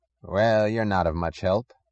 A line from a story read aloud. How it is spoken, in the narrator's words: had said dryly